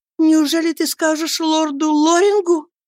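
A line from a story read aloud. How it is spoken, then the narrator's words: Exclaimed. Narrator (Russian): воскликнула она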